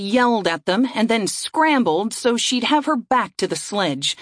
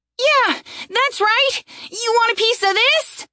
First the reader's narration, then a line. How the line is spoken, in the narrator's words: The young woman shouted ... make as much noise as possible